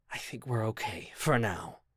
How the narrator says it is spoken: continued to whisper

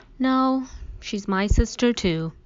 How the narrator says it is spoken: yawned

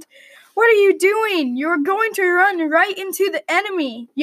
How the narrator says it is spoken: yelled a knight

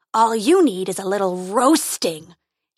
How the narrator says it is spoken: he roared

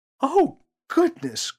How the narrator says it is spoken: cried Mother

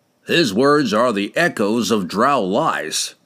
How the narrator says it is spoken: Kemp snarled

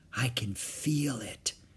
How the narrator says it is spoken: she whispered

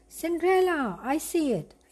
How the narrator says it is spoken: Gus exclaimed

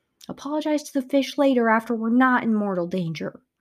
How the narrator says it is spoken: I snapped

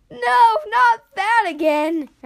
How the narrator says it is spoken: Ash wailed

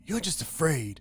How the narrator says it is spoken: exclaimed Marty

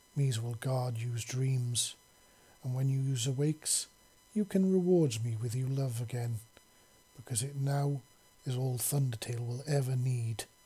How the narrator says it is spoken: she said softly

